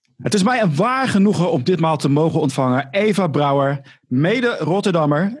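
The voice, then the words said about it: Rotterdam Dutch accent. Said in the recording (Dutch): “dat Rotterdamse accent... dit is nou eenmaal mijn accent”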